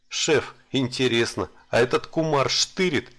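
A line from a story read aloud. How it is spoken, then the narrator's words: Dwarf's chuckle. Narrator (Russian): хохотнул гном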